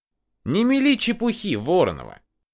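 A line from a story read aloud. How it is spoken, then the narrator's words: Heavy sigh, irritated. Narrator (Russian): Климов тяжело вздохнул и раздраженно добавил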